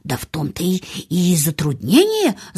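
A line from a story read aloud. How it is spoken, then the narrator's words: Confused mumbling. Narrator (Russian): забормотал растерянно миссис Медлок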